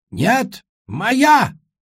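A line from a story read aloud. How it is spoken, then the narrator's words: Booming ancestral voice. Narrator (Russian): прогремел со всех сторон голос пращура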